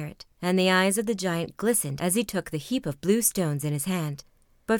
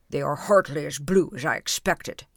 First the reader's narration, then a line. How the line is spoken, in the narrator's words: he grumbled